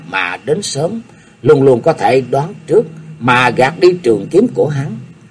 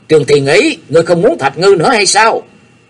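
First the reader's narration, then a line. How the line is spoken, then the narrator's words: Angry roar. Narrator (Vietnamese): Mình mấy của Nhạc Chi Dương cũng toát mồ hôi lạnh, gã giận dữ quát lớn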